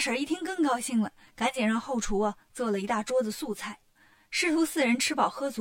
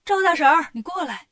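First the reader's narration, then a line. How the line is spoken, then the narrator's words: Calling out. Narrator (Chinese): 悟空就喊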